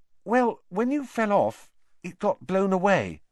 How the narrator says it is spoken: said Hermione hesitantly

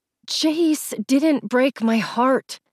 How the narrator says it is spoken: I said through clenched teeth

